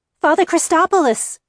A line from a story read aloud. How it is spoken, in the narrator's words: cried